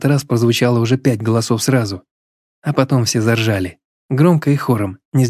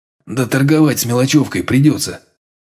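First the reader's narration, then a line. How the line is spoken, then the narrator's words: Sour grunt. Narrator (Russian): кисло хмыкнул улыбчивый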